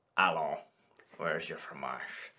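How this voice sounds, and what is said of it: Exaggerated fake French accent. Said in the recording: “You do a better French accent. Do it. ... It's one of those accents that's like, you couldn't fool a native person.”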